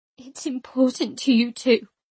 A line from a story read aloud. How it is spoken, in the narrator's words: I said, my voice breaking